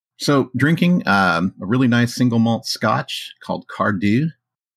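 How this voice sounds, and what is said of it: Put-on Scottish brogue. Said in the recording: “Trying to do my Scottish brogue.”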